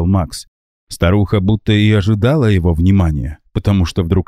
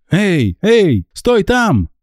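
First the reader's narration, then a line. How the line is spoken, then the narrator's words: Shouting. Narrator (Russian): закричал он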